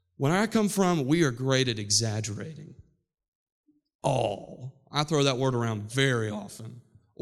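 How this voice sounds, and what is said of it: West Virginia accent. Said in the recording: “you know I'm from West Virginia. My accent creeps out in my preaching when I get a little bit excited.”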